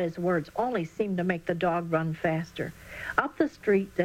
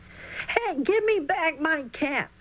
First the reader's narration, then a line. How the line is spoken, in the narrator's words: was panting hard when he finally caught up with the dog